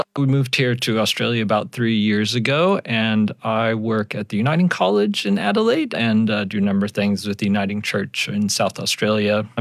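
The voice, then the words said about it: American accent, Yankee drawl. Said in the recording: “as your listeners might pick up pretty quick, I am American. I pick up my Yankee drawl”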